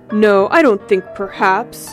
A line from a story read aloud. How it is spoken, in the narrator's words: he mimicked savagely